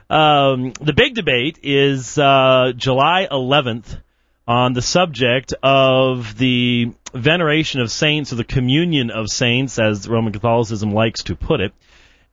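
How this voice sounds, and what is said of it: Georgia Southern US accent. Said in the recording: “my accent stinks, but then again, who's to define what a Georgia accent's supposed to sound like”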